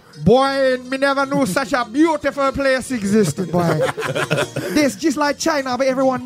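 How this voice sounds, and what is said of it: Put-on Jamaican accent. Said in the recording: “the same accent ... a Jamaican correspondent”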